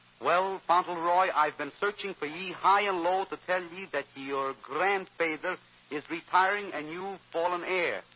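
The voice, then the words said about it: Speaks with a put-on dialect. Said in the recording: “your conscience speaks with a dialect.”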